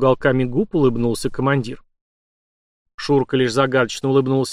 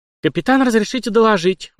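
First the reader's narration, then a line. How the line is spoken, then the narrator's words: Brisk, unflustered report. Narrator (Russian): бодро принялась рапортовать, ничуть не смутившись его грозным видом Александра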